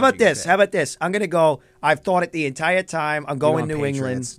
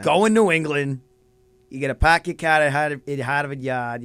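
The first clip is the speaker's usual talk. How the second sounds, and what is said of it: Put-on Boston accent, unconvincing. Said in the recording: “There's the Boston accent. ... You can't do the accent. ... that's the Boston accent”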